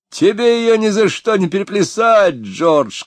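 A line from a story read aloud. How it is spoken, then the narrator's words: Shout from someone. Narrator (Russian): крикнул кто-то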